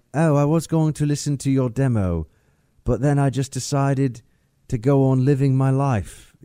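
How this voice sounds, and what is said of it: Put-on English accent. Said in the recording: “That's the kind of English accent that that guy... Russell Brand”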